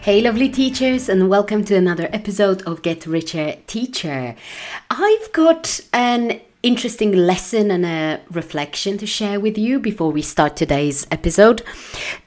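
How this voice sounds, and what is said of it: Husky, hoarse voice. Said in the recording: “my voice is a little bit husky. It's not the way it normally is. I've got a bit of a sore throat.”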